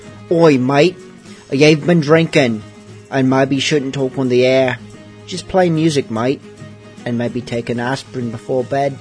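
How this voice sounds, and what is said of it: Put-on piratey Cockney accent. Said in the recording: “in my best piratey Cockney accent”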